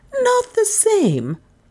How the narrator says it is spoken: gasped Miss Cornelia, unwilling to believe her ears

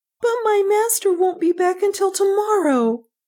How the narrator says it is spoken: Beta cried

